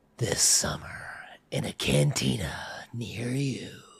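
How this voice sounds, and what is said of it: Movie trailer announcer voice. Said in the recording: “doing your Batman voice? ... I'm not trying to do Batman. I'm trying to do the the trailer voice.”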